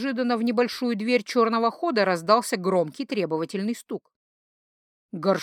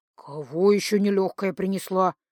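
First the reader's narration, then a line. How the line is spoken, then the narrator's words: Quietly spoken. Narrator (Russian): тихо проговорил артефактник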